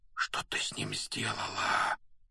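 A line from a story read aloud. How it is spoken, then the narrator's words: Whispered. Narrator (Russian): прошептал Гарри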